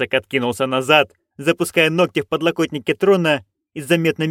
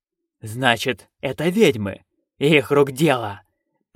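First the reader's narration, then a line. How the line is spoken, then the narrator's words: Hiss. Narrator (Russian): прошипел он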